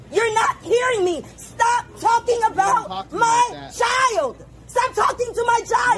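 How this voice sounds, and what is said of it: Angry screaming woman. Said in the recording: “I'm screaming at you so you can hear me ... stop screaming in front of your child”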